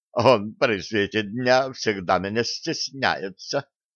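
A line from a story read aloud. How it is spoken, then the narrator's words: Giggling. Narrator (Russian): хихикнула Нола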